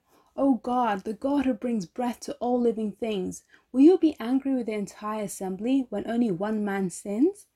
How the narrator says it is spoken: fell face down and cried out

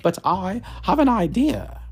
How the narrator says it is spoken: said, and her voice has suddenly changed

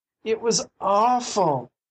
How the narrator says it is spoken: she moaned when she came to herself

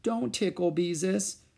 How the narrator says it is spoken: she begged

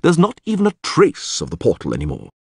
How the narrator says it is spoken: the priest said coldly

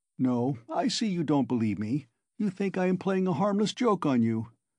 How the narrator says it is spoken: Porfiry began again, getting more and more lively, chuckling at every instant

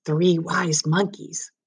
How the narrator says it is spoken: whispered Mags

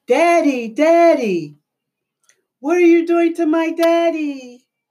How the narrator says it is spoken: they begin to scream

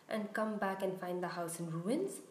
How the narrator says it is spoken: she snarled

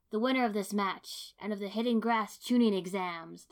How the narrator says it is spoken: the referee boomed

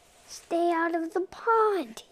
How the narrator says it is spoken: yelled Milton

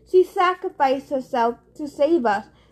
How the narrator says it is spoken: he said miserably

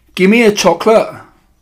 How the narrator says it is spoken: shouted Bruno, becoming suddenly suspicious

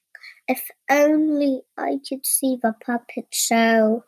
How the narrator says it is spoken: sighed Pinocchio

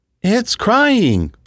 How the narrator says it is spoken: Phyllis exclaimed

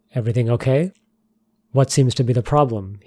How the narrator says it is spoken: asked

